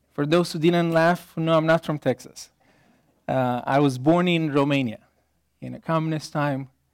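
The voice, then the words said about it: Foreign accent in English. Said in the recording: “this weird accent”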